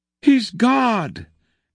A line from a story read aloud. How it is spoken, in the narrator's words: cried all the creatures again, and they were still crying